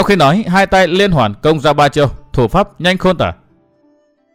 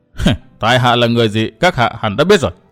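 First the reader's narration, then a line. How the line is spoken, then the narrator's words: Cold laugh. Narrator (Vietnamese): Huyết thủ Tiểu Tam cười lạnh lùng tiếp lời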